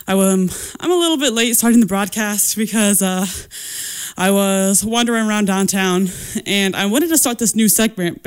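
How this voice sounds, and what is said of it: Out of breath, breathless speech. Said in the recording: “my out of breathness.”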